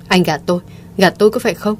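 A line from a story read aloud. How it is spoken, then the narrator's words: Frenzied shout through clenched teeth. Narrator (Vietnamese): Mộ Thiên Thanh gần như phát điên, căm tức, cắn răng quát lớn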